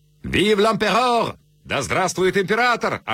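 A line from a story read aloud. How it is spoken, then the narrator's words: Drunken shouting. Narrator (Russian): орали пьяные солдаты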